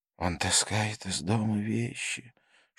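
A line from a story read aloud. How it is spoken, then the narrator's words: Father's whispered complaint. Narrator (Russian): шепотом посетовал его отец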